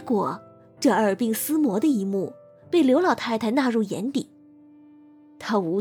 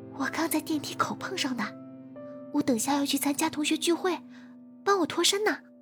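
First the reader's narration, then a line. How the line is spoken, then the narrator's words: Whispering in ear. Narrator (Chinese): 玉星锤 在他耳边悄声的说道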